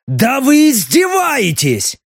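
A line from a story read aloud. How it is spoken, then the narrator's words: Barking. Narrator (Russian): рявкнул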